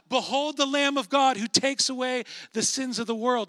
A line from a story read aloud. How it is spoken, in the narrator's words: he shouts out